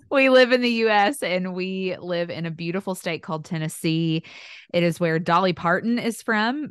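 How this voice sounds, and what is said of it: Southern US accent. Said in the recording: “here in the South, which you can probably tell by my accent”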